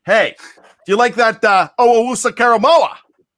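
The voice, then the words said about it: Put-on Pittsburgh Yinzer accent. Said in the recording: “you don't love my Yinzer accent. Nobody loves my Yinzer accent except for me. But, you know, I gave it a shot. Am I getting closer?”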